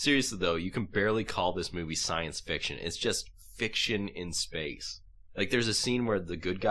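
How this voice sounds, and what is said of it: Usual voice. Nothing is said of it.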